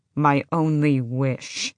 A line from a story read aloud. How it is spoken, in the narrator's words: Adian said, growling in Ren's face